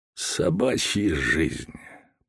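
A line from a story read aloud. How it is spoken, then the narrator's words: Grumbling postman. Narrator (Russian): проворчал почтальон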